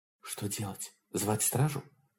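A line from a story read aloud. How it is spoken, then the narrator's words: Whispered. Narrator (Russian): Лоан шепнула Холрейду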